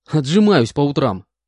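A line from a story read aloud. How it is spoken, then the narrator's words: Displeased snort. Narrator (Russian): Недовольно хмыкнул я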